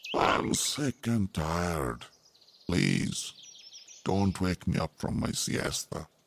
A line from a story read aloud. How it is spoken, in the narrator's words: said in a sleepy voice